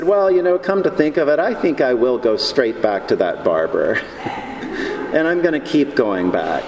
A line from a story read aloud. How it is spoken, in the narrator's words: he said